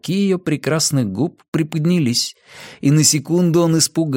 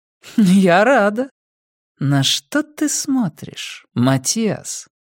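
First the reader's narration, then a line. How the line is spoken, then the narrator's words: Low purring voice. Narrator (Russian): Низкое мурлыканье ее голоса вибрировало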